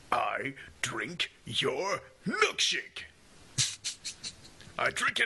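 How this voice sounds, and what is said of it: Daniel Plainview impression. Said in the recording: “do a Daniel Plainview impression”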